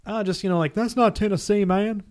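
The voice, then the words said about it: Put-on East Tennessee accent. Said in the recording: “Your East Tennessee accent's pretty good.”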